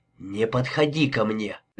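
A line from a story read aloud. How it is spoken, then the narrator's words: Hissing whispered warning. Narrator (Russian): предупредила она со свистящим шепотом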